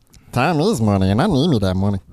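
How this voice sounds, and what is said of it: Comic character voice. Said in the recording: “Meatball? My meatball impersonation?”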